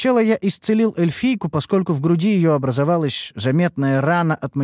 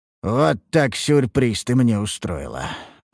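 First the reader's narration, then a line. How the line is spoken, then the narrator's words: Muttered. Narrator (Russian): пробормотал я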